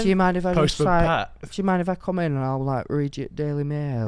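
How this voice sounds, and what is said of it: Put-on sexy flirtatious voice. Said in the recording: “Okay, your sexy voice, go.”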